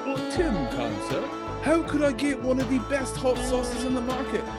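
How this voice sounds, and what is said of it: Bad fake British accent. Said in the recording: “horrible fake British impersonation of Tim”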